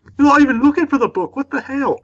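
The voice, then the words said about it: Bad put-on Scottish accent. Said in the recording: “That's my Scottish accent ... Please don't do that again ... that was just bad”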